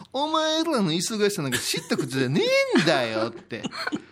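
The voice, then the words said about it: Imitates another person's voice. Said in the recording (Japanese): “私の津島先輩の言い方 ... ものまね”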